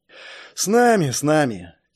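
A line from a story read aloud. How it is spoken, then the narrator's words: Heavy sigh. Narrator (Russian): тяжело вздохнул Карл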